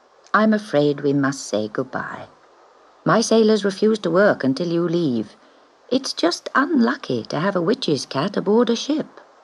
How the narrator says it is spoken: he said kindly

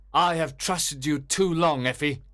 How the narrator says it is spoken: cried sternly

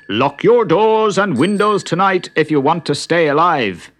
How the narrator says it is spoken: Patrick O'Brien, the policeman, shouting

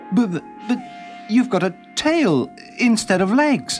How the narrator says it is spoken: stammered UK

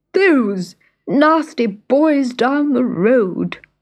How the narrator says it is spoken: whimpered the dog

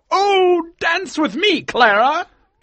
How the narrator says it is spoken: cried Colonel Killigrew

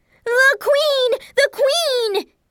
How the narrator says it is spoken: one of the other gardeners shouted

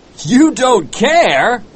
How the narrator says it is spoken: cried Starbuck in despair

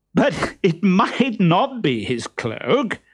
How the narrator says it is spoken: said Harlequin, trying not to laugh

